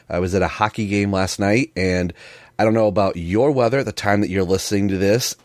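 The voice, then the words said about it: Slightly hoarse voice. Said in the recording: “I sound probably a little hoarsey. ... wonderful sinus drainage”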